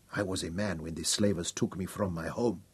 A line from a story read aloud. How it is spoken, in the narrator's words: he told Hal quietly